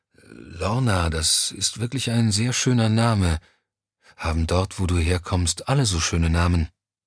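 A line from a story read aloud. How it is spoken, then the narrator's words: Sleepy voice. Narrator (German): Mit schläfriger Stimme sagte Johnny schließlich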